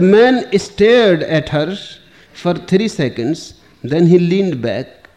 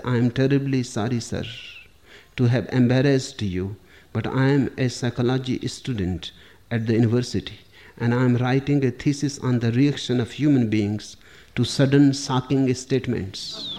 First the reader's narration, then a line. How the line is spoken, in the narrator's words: In a quiet voice, she said